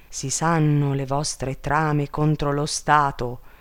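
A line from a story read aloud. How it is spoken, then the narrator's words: Queen exclaiming. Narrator (Italian): esclamò la regina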